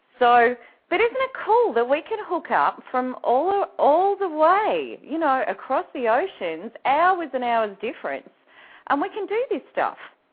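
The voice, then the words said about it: Australian accent. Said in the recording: “the only Aussie on the Snap Out of It network ... everyone loves my accent ... my accent doesn't mean much over here”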